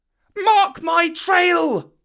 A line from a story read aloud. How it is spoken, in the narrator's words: Mowgli shouted